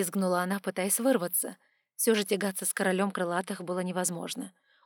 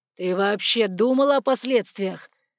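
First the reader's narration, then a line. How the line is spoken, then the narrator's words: Dragon's angry growl. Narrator (Russian): Рычал дракон, черным пламенем гнева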